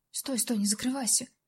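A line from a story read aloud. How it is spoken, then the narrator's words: Quiet pleading request. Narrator (Russian): словно у человека тихонько попросил Костик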